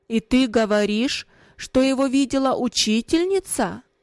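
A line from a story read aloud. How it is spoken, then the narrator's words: Raised voice. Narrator (Russian): Отец, повысив голос, спросил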